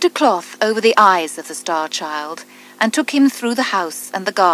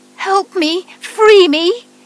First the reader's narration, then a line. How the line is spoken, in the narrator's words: it cried